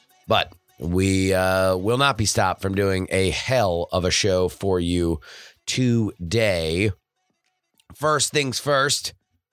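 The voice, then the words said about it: Hoarse, lower voice from a cold. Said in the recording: “recovering from a bit of a cold. That's why the timbre of my voice is even lower than usual.”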